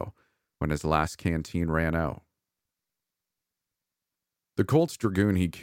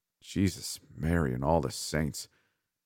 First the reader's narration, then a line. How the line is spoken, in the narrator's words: he muttered